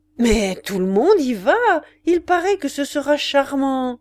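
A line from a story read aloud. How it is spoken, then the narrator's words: Exclaimed. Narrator (French): s'écriait madame de Galardon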